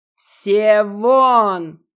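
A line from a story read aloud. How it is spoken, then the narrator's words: Deafening animal roar. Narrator (Russian): Оглушающее звериное рычание сотрясло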